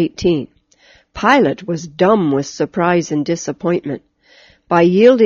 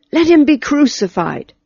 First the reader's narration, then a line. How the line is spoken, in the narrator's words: With one accord they cried